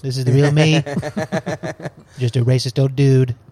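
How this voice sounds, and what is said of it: Imitates another person's voice. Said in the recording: “jumped out of his skin a little bit and was Donald Trump ... impersonation”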